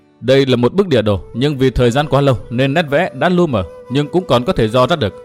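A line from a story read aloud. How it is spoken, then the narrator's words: Stern voice. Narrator (Vietnamese): Tuyết Liên nghiêm giọng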